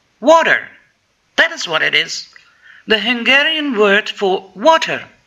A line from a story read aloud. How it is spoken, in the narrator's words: all of a sudden he exclaimed